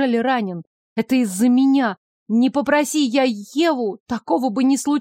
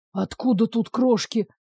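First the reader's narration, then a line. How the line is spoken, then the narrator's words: Indignant whisper. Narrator (Russian): шепотом возмущался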